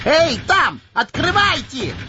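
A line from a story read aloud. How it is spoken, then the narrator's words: Yelling. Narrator (Russian): орал он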